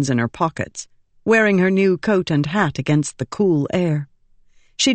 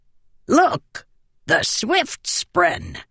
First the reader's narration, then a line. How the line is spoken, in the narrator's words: he cackled